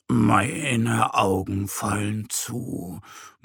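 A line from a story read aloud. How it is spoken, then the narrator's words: Murmured. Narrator (German): murmelt er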